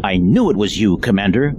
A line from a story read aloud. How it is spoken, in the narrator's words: Kaplut snarled